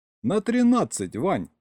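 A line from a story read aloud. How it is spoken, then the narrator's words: Giggling. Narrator (Russian): хихикнул Серега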